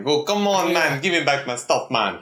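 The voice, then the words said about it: Put-on Jamaican accent. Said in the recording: “Why is it Jamaican sounding? ... Jamaican like”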